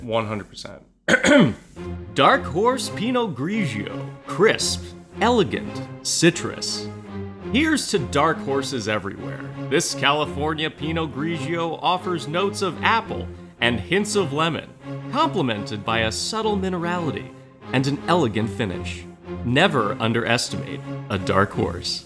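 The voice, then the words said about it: Dramatic realtor-style reading voice. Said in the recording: “in your best realtor voice”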